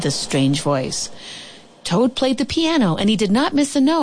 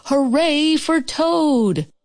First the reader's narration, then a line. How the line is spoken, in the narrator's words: he shouted